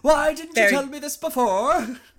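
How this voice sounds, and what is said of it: Imitates another person's lyrical accent. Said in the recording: “that's not my impression of an Icelandic accent. My impression of Pierce Brosnan's accent in this scene ... It has to be very lyrical.”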